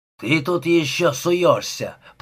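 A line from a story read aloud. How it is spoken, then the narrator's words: Growling. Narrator (Russian): прорычал Эванс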